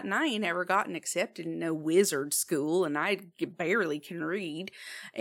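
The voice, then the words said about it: Put-on character accent. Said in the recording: “where is your accent from? It is fascinating.”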